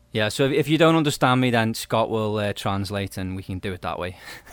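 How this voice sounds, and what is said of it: Liverpool English accent. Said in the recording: “he's originally from the Liverpool, UK, hence the accent ... such cool accents”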